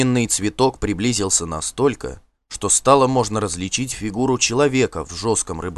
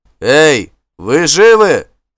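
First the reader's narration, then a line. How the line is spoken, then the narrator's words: Low voice shouting from afar. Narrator (Russian): закричал низковатый голос из морской темноты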